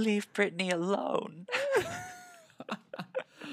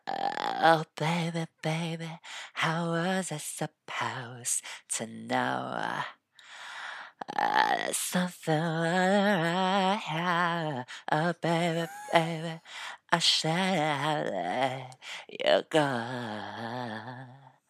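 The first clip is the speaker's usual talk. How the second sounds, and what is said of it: Sung imitation of a pop singer. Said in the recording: “I do a really good Britney impression.”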